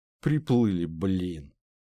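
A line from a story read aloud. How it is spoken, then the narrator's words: Breathless exhale. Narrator (Russian): выдохнул Ларс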